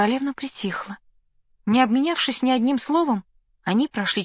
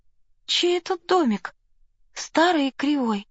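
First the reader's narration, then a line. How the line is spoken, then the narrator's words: Timid question. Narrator (Russian): робко спросила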